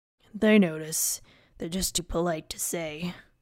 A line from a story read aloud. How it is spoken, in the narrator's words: Fingal grunted in reply